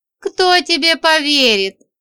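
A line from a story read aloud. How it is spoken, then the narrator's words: Chuckling. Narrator (Russian): хохотнул Аполлонский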